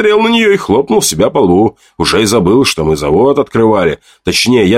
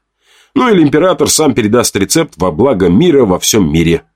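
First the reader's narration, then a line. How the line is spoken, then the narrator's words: Snorted. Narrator (Russian): фыркнула Женя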